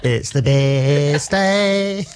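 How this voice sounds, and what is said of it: Sung SpongeBob cartoon character voice. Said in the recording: “sing it like SpongeBob ... Yeah, that was really good ... my SpongeBob impersonation”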